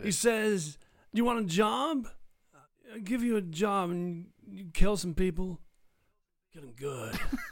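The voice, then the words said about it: Imitates another person's voice. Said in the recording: “my Christopher Walken impersonation. I frequently do one. ... That was amazing.”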